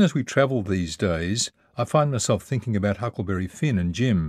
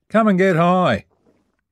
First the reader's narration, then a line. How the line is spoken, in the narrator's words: called out